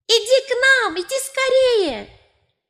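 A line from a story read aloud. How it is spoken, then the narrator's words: Children shouting. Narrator (Russian): дети внизу закричали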